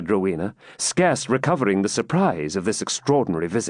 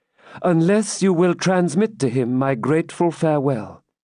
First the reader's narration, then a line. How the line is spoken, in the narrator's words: said Rebecca calmly